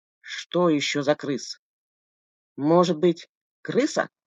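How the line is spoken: Grumbling mutter. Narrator (Russian): буркнул Болдырь

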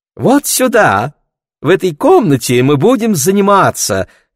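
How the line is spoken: Singsong voice. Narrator (Russian): говорил певучим голосом Королевский

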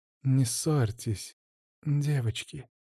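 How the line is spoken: Soft, smiling. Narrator (Russian): мягко улыбнулась Эмили

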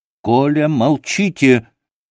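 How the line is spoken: Shouting. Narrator (Russian): крикнул он Красоткину

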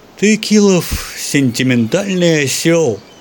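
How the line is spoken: Cooing. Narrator (Russian): проворковал Севрюгин

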